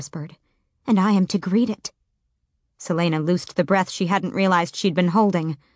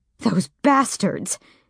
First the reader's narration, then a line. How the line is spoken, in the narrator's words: Nehemia spat